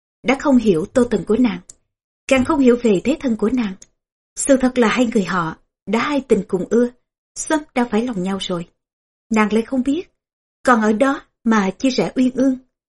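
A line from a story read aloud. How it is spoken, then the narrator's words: Laughing aloud. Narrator (Vietnamese): Tô Tần cười vang mà nói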